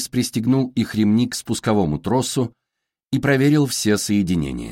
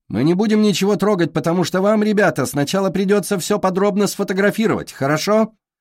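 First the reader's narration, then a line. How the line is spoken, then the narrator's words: Shouted down from above. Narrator (Russian): крикнула Стилли сверху вниз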